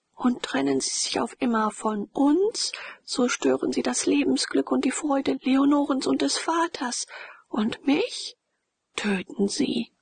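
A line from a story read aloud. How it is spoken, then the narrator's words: Hesitant, sobbing in pain. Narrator (German): Mit den letzten Worten, die sie erst nach einigem Zögern vorstieß … laut schluchzend mit ungebändigtem Schmerz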